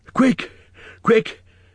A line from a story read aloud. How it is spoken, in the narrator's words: gasped